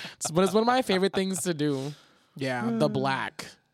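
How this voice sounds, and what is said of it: Usual voice. Nothing is said of it.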